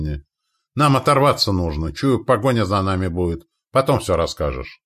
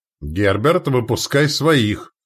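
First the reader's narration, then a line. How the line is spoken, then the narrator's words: Barked from a tower. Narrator (Russian): рявкнул с башни магистр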